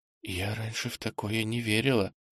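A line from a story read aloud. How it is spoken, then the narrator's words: Whisper. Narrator (Russian): прошептала она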